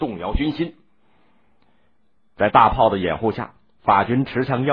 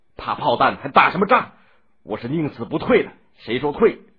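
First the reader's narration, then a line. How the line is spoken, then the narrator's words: Roaring. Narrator (Chinese): 他立刻咆哮道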